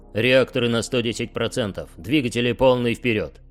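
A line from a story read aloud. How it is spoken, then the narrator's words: Barked command. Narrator (Russian): рявкнул примарх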